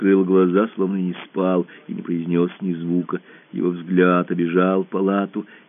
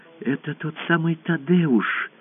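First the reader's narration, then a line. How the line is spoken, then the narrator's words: Whisper. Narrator (Russian): прошептала она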